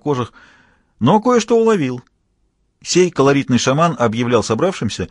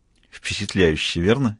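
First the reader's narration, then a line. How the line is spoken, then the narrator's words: Asked quietly. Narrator (Russian): тихонько спросил он Мазура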